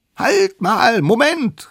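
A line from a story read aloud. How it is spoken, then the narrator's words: Small creature calling out. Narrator (German): rief die allerkleinste Mammutkeule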